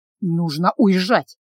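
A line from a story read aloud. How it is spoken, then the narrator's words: Muttered. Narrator (Russian): пробормотал Калабриан, оторвавшись от полупустой фляги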